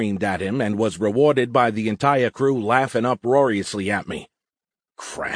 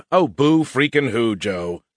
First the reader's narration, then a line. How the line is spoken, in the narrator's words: chuckled